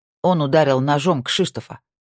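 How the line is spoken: Angry shout. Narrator (Russian): сердито выкрикнула Тина

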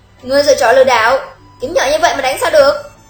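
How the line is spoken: Angry. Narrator (Vietnamese): Tề Nhã Chỉ lập tức giận dữ nói

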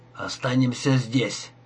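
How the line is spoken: Quiet whisper. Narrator (Russian): тихо прошептал Бит

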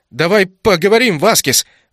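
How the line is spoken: Shouting while running. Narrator (Russian): выкрикнул на бегу

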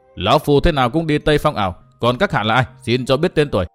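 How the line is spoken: Loud shout after bewilderment. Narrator (Vietnamese): Hắc Sát lão quái ngẩn người ra dây lát rồi quát lớn

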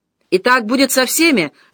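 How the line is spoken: Shouting. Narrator (Russian): закричал Дюрбуаз

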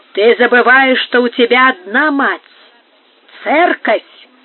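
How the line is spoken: Exclaimed. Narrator (Russian): вскричал Бонифацио

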